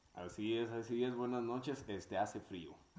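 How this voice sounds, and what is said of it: Radio announcer voice. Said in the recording (Spanish): “Tiene voz de locutor.”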